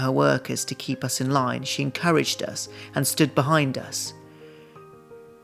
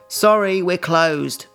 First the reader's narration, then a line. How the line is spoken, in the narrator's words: barked the clerk, who looked as tired and miserable as I felt